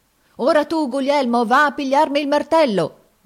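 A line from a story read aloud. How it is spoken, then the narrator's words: Shouting. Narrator (Italian): gridava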